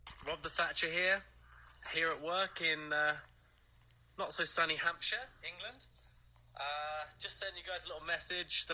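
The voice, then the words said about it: A regional accent. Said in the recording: “I love the accent.”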